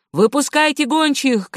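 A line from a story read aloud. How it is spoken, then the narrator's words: Shouting. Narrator (Russian): кричал другой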